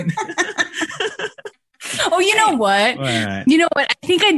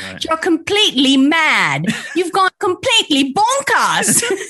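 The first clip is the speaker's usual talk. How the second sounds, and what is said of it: Put-on British accent. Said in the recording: “I've been practicing my British accent over the past few days.”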